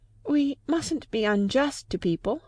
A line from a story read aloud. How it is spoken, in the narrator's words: faltered Lucy